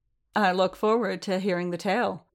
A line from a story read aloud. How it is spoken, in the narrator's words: Tamsin said dryly